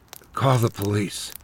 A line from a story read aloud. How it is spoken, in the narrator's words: said quietly